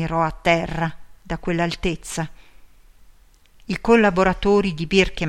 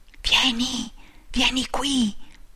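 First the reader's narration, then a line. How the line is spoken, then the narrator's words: Faint, indistinct whisper. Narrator (Italian): sussurra, quasi indistinta, la sua voce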